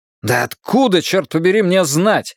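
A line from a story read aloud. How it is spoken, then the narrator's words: Irritated exclamation. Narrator (Russian): раздраженно воскликнул я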